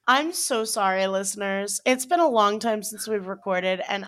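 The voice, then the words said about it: Congested voice from a cold. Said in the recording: “I have a cold. I don't know if you can hear it in my voice,”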